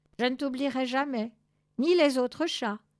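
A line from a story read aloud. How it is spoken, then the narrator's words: Shouted. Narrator (French): cria-t-elle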